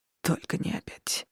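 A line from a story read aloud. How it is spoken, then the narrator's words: Muttered. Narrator (Russian): пробормотал Дон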